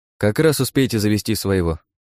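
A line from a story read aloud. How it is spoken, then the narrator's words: Calm. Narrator (Russian): спокойно ответил я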